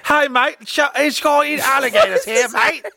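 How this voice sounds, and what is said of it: Put-on Australian accent. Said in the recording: “every accent thrown together ... my Australian one ... the Australian accent was from the inland ... inland Australian”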